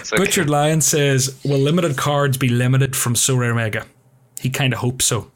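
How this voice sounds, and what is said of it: Mock American accent. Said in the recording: “Take the piss out of the American accent. Okay, I'll try my best.”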